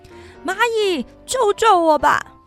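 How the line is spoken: Shouting. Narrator (Chinese): 他大喊

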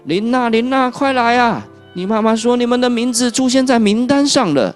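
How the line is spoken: Urgent calling grandmother. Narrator (Chinese): 突然，弗洛莎的奶奶来叫他们说

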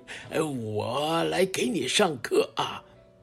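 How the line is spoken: Smiling teacher. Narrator (Chinese): 孔老师笑着说

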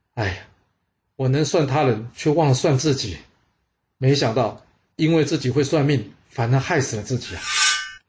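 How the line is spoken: Sighing. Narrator (Chinese): 这商门大屋一听，他叹了口气说

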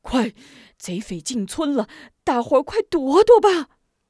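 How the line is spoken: Breathless. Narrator (Chinese): 艾五子气喘吁吁

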